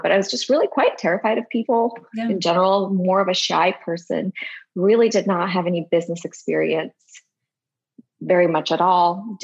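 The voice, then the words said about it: Slight non-native English accent. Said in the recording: “I didn't even speak English very well. So I still have a bit of an accent that pops out now”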